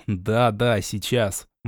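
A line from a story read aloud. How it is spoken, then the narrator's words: Despairing mutter. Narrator (Russian): Чувствуя, как внутренности сковывает лед отчаяния, я пробормотал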